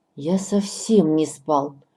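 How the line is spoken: Angry reply. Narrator (Russian): отвечает он сердито

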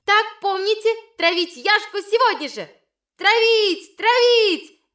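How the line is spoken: Shouting at full voice. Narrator (Russian): Черненькая Ивина кричала во весь голос

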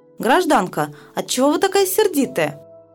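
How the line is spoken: Joyful cry. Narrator (Russian): вскрикивает радостно

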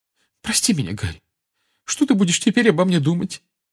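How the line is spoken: Trembling voice. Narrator (Russian): дрожащим голосом проговорила она

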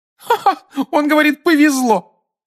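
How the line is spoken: Woman laughing. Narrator (Russian): рассмеялась женщина с фиолетовыми волосами

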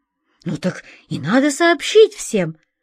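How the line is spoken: Exclaiming boy. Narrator (Russian): воскликнул белокурый мальчик

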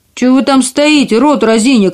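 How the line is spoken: Angry shout. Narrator (Russian): крикнул карлик, и его землистое лицо побагровело от злости

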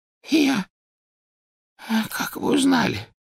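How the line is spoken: Hoarse rasp. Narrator (Russian): прохрипел Оливандер

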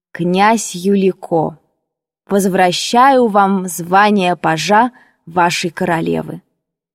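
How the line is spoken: Solemn. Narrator (Russian): сказала торжественно

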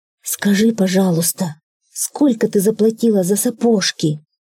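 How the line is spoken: Timid question. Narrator (Russian): спросил робко заяц

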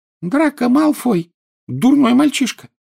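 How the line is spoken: Angry squeak. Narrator (Russian): сердито пропищал Добби

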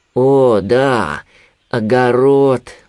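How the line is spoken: Sigh. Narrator (Russian): вздохнул Винни

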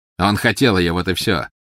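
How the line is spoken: Mocking. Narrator (Russian): насмешливо сказал Волан-де-Морт

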